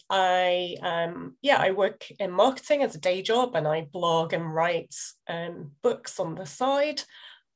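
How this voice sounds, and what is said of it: Northern English Liverpool accent. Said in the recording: “as you'll probably recognise from the accent, in the UK. I live in the north of England, in a city called Liverpool.”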